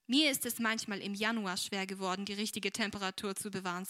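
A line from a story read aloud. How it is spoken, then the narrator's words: Plain. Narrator (German): sagte der Doktor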